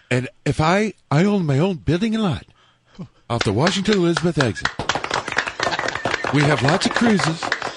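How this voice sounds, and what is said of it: Imitates another person's voice. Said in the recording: “his Johnny Landoff impression”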